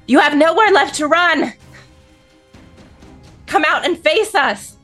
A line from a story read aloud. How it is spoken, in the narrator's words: shout through the wall